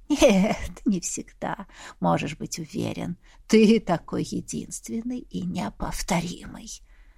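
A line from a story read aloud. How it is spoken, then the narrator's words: Laughing. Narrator (Russian): рассмеялся собеседник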